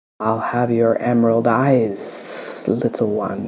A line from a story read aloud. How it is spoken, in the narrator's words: she hisses